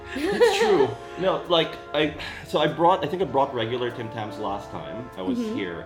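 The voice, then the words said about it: American accent. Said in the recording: “I'm from Sydney. Ignore the American accent.”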